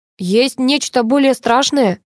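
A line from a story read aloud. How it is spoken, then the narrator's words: Guest's snort. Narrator (Russian): хмыкнул гость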